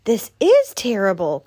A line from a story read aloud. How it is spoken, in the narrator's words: cried Rabbit